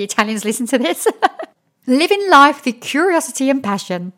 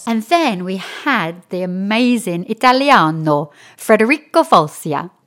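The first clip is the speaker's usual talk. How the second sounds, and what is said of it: Put-on Italian accent. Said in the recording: “Excuse my Italian accent.”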